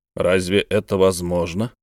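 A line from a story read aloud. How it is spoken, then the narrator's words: Plain. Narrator (Russian): спросил граф Тимошов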